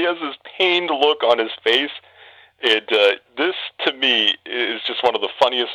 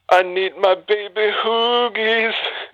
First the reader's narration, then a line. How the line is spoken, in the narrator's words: moans in despair, and he sings